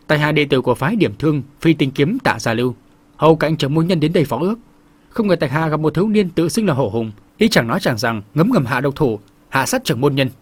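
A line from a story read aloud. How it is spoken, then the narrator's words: Resentful formal address. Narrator (Vietnamese): vẻ mặt hậm hực cũng bước vào khoang thuyền chắp tay chào chung quanh một vòng rồi cất tiếng nói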